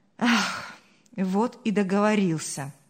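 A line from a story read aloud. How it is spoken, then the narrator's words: Sigh. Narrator (Russian): вздохнул Павел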